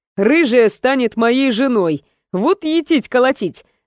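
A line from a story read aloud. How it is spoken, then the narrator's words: Laughing. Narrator (Russian): рассмеялся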